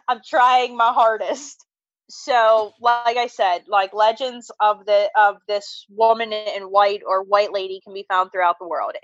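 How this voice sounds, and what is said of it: Pittsburgh accent. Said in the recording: “Welcome to the Pittsburgh accent. ... You're from Pittsburgh.”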